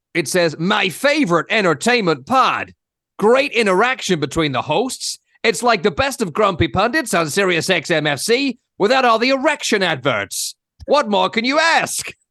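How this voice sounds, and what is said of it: Put-on American accent. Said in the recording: “I assume American must be right. ... I'll do the accent.”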